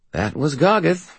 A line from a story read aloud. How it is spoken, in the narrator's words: I said cheerfully